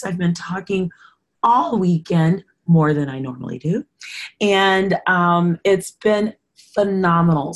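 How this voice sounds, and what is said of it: Hoarse voice. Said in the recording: “forgive my voice. It's a little hoarse.”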